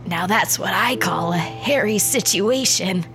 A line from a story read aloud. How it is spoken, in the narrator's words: he wheezed